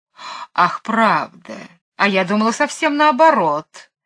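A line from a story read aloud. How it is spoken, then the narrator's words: Sarcastic laugh. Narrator (Russian): саркастически засмеялась Мэри Поппинс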